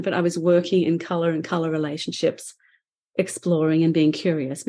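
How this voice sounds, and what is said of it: Speaks with a noticeable accent. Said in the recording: “my vowels got tangled up and people said, what did she say? ... I have an accent and I'm sorry you have to listen a little bit closer”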